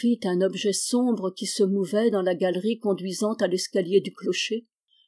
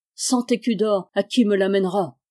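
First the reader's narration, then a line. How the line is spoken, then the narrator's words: Exclaimed. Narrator (French): s'écria-t-il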